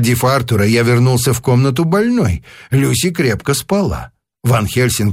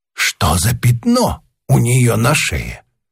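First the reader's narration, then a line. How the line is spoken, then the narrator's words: Whispered question. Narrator (Russian): шепотом спросил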